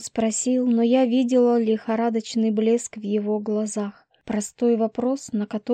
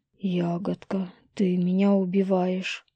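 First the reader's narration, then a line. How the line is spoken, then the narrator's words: Moaned. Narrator (Russian): простонал лис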